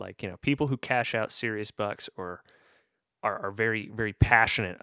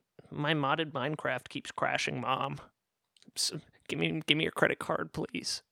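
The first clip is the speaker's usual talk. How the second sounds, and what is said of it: Imitates a child's voice. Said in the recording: “your child impression is like sounds like it's slowly going through puberty. Because last week it was at a much higher pitch.”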